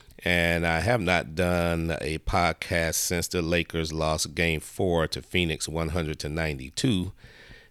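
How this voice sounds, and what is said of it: Sick, under-the-weather voice. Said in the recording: “apologize for my voice. As you can probably tell, I'm a little bit under the weather here ... My voice is getting a little better.”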